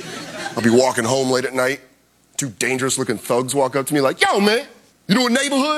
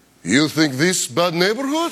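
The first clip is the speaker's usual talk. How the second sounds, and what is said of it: Fake Russian accent. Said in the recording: “I fake a Russian accent”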